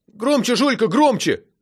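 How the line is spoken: Shouting. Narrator (Russian): крикнула ей Сережа

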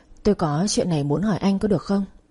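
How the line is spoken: Soft question. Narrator (Vietnamese): tôi khẽ quay sang anh hỏi

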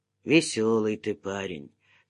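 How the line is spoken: Wistful, sighing. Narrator (Russian): тоскливо заметил усач и вздохнул

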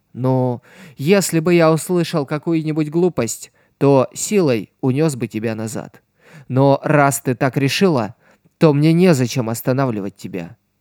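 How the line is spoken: Plain. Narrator (Russian): ответил он

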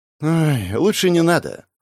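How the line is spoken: Rueful sigh. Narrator (Russian): вздохнул поймав не самые приятные воспоминания

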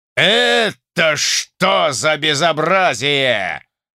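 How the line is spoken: Shrill yell. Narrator (Russian): завопил Артабалевский пронзительно

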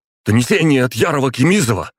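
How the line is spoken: Shouted out. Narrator (Russian): выкрикнул он

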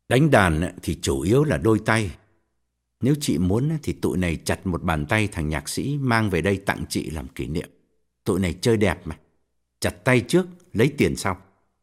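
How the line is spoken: Cold. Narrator (Vietnamese): Quân lạnh lùng bảo

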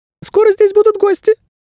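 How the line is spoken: Squeak. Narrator (Russian): пискнул проводник

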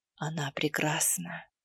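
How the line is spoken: Barely audible whisper. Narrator (Russian): шепнул едва слышно

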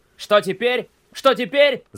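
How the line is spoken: Panicked wailing. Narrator (Russian): завопил Мелис

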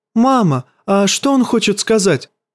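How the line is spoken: Princess's plaintive question. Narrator (Russian): жалобно спросила у королевы принцесса Мерцелла

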